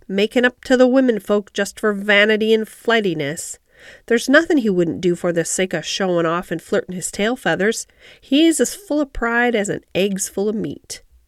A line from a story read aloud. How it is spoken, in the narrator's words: snapped Ben Weatherstaff